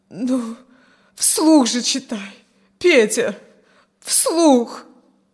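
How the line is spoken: Moaned. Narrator (Russian): поскольку он не произносил ни слова, простонала

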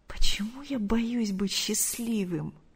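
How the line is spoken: Horrified whisper. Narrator (Russian): с ужасом прошептал Артур

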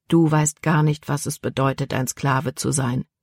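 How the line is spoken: Calm answer. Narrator (German): antwortete Caleb ruhig

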